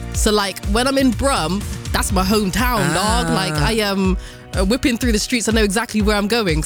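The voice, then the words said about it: Strong Bristolian accent. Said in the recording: “I can't not hear the Bristolian ... accent ... I've got this strong Bristolian accent”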